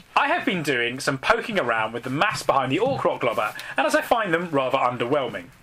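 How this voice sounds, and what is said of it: Dramatic reading voice. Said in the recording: “you've got the dramatic voice”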